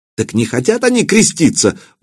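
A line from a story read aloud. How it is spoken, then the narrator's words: Bishop exclaiming. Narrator (Russian): воскликнул епископ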